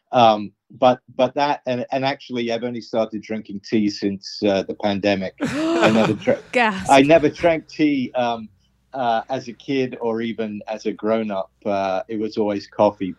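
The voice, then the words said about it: Heavy New York accent. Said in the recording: “native New Yorker accent ... that heavy New York accent's”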